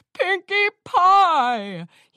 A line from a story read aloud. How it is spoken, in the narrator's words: he shouted back